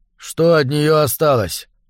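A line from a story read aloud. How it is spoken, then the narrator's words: Strange distant voice. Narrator (Russian): странным далеким голосом спросил он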